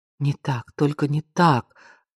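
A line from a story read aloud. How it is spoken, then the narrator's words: Whispered. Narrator (Russian): прошептала она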